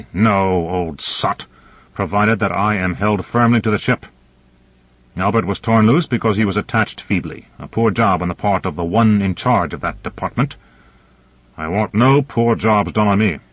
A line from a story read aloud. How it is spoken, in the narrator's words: Konyev said bitterly